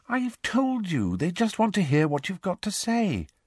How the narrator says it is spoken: said Hermione soothingly

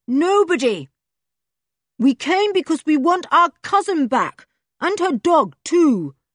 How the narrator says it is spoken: boomed Julian, making a funnel of his hands and trying to outdo the other voice

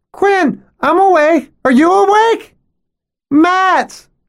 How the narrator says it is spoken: shouts Quinn again

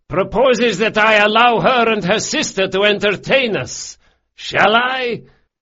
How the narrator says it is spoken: he shouted

